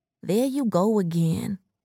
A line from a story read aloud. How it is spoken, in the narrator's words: Erica said sleepily